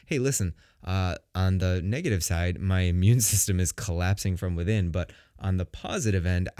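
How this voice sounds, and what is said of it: Deep, sick-sounding voice. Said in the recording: “I was sick again. Yep, sick again. Second cold in a month. You could probably hear it from my voice. ... I've never had such a really deep, beautiful voice like I have right now”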